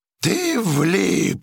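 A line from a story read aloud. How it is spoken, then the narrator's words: Howling. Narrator (Russian): взвыл гидрант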